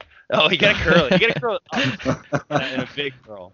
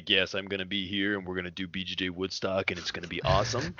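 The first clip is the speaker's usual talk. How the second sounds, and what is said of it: Deep, booming event-promoter voice. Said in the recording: “You do have a very deep voice, but it's like definitely the promoter voice.”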